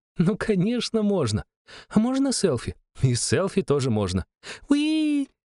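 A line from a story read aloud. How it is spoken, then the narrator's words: Girl's excited squeal. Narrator (Russian): взвизгнула девчонка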